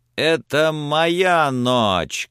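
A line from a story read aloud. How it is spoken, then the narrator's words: Shouting. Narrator (Russian): кричал он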